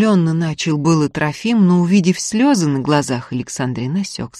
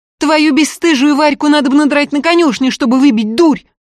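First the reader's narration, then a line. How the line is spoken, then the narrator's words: Blurted through sobs. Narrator (Russian): Выпалила уже, давя с рыданиями, Александрин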